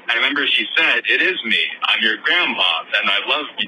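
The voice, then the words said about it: Choked-up, emotional voice. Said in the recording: “getting choked up.”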